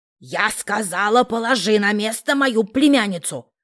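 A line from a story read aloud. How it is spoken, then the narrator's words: Snarling growl. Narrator (Russian): Рыкнула Моти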